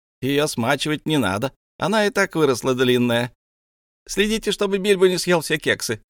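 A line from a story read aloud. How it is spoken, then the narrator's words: Several voices shouting. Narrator (Russian): кричали другие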